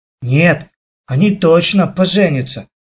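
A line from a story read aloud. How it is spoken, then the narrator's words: Whispered. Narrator (Russian): прошептал мне Лешка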